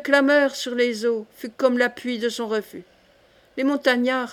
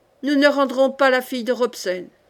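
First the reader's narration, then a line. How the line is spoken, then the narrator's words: Domineering voice. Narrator (French): Et Tolrog d'une voix dominatrice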